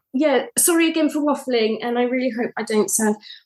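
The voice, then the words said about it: Posh English accent. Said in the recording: “this isn't my accent. I get really posh when I'm anxious. ... this is a learnt way of speaking. And when I get anxious, I get terribly, terribly posh like this.”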